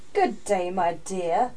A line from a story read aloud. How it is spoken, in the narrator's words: growled the wolf with a big, bad smile